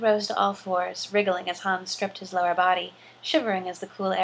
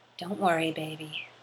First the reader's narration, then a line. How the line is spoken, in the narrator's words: Han murmured against Luke's back